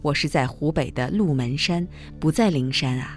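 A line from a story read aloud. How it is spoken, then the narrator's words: Calm, indifferent. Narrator (Chinese): 古隐智净禅师只是淡淡地说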